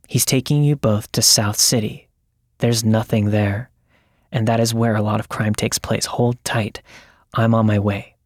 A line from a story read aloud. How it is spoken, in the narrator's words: her friend, who then very calmly said